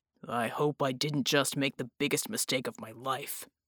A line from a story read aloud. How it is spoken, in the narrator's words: Bulwark growled